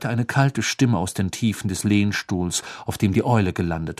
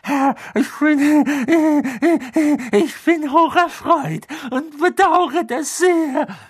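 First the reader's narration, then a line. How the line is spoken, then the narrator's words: Gasping, man on ground. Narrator (German): keuchte der Mann auf dem Boden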